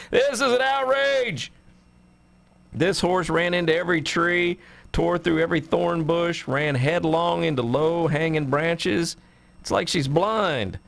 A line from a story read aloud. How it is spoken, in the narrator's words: he's yelling